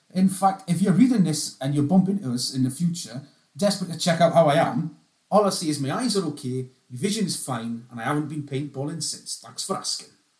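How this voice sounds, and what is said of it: Put-on Geordie accent. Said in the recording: “read that in a Geordie accent ... Sounds a bit like the Hairy Bikers. That was quite good. ... That was on point.”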